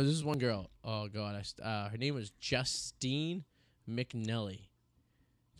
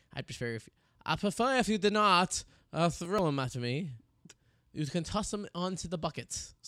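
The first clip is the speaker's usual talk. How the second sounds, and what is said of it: Poor put-on French-Canadian accent. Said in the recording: “That was my poor French-Canadian accent. ... you sounded more like Sacha Baron Cohen, like doing a Borat guy.”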